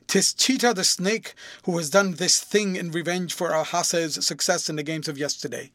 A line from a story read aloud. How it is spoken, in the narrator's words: Receiving his faint answer, exclaimed